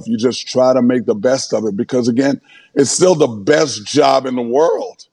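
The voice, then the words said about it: Hoarse voice. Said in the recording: “your voice is hoarse from yelling at those kids.”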